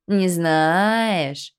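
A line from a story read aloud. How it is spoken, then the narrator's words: Drawled. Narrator (Russian): протянул Фельдфебель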